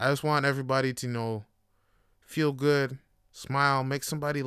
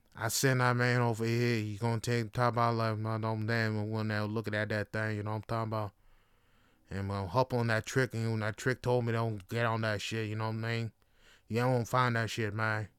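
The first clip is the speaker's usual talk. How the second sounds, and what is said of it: Imitates another person's voice. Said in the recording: “Terrence Howard, terrible impression right now.”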